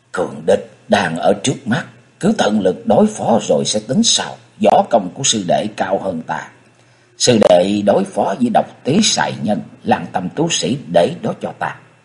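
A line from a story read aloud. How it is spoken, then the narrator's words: Quiet murmur. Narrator (Vietnamese): Nhất Hạc đạo nhân nói khẽ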